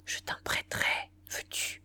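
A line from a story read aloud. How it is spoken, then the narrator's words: Whispered in ear. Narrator (French): Elle lui souffla dans l'oreille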